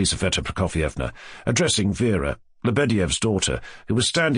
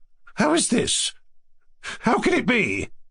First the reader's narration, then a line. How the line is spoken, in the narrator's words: cried in surprise